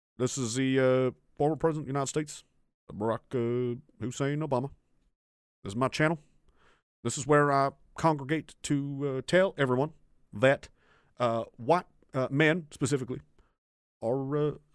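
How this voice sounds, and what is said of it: Barack Obama impression. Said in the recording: “my impressions are too good. They really did believe it was Barack Obama.”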